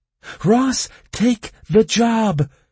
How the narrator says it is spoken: cried Kirea

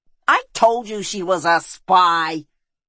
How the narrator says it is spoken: roared Peisan Yol

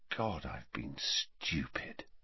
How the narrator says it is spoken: he said quietly

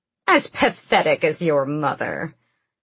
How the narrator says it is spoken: her grandmother spat

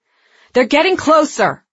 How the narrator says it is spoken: Breck shouted in the comm

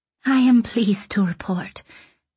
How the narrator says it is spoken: he said in a soft, shivery voice

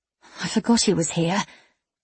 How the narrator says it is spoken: En murmured

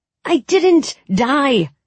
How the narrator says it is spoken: I said furiously

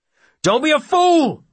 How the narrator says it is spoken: Brogan shouts

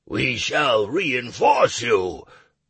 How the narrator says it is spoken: growled 2 of the smaller orcs

